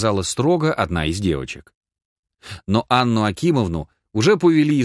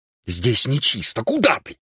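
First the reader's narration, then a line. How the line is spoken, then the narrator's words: Angry hiss. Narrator (Russian): прошипел Чаликов, глядя на нее со злобой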